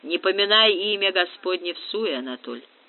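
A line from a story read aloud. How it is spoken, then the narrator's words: Snort, nearly accentless Russian. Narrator (Russian): хмыкнул Губерт, говоривший на русском практически без акцента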